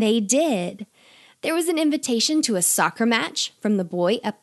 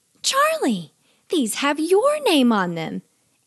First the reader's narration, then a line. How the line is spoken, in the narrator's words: his mom called out to him